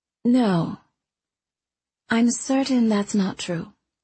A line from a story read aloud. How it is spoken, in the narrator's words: she said